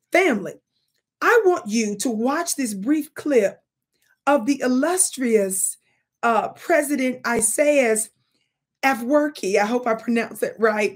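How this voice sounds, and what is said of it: Mississippi American accent. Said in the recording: “my Mississippi accent”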